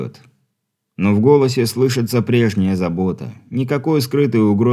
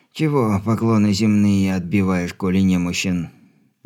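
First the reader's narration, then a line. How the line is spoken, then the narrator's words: Displeased creaky old man. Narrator (Russian): недовольно проскрипел дедок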